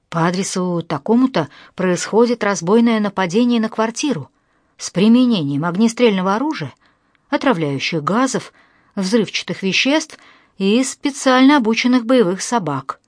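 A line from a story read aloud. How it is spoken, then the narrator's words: Hurried. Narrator (Russian): Зинаида торопливо сообщила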